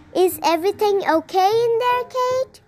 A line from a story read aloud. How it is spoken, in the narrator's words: Junior called out